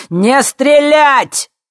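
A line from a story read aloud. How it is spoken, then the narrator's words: Barked shout. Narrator (Russian): гаркнул Юрий Дегтярев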